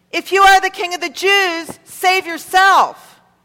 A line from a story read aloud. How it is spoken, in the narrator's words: They called out to him